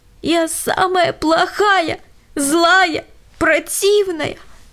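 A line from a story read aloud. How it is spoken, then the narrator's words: Sobbing girl. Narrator (Russian): всхлипывала Лена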